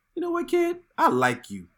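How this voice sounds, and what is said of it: Good impression of Nick Fury. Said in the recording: “Nick Fury ... That was really good impression.”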